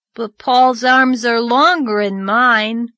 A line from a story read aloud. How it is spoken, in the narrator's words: grumbled Davy